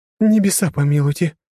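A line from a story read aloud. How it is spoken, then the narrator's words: Sudden sob, mother. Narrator (Russian): всхлипнула вдруг мать Свенни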